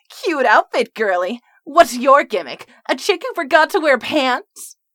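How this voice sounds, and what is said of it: Squeaky taunting character voice. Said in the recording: “a squeaky voice called out from the opposite corner”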